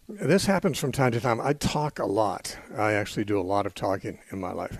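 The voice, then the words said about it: Worn-out voice that may crack. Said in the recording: “my voice has got something a little out of the order, out of the ordinary today. I've got a problem with my voice ... my voice will probably crack a little bit ... my voice gets worn out”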